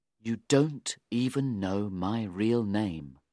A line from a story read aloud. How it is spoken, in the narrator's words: he said very quietly